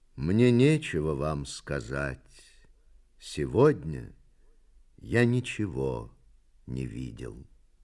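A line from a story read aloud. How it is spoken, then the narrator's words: Sad reply. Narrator (Russian): поэт печально ответил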